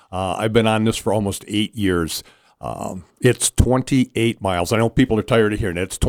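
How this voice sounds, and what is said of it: Excited, animated voice. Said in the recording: “I am so excited. If you can hear it in my voice”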